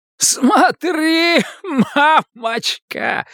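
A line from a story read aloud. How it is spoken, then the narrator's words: Giggling shout, wounded man. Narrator (Russian): хихикая кричит человек с стальным копьем в разрубленной груди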